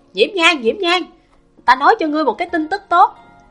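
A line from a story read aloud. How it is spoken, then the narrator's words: Loud excited shout. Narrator (Vietnamese): Lưu Thanh Tùng lớn tiếng hét lên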